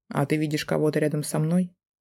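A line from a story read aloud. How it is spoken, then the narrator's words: Cold inquiry. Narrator (Russian): Холодно осведомился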